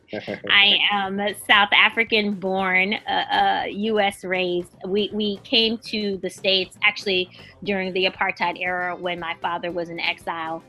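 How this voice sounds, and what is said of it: American accent. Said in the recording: “this very American accent”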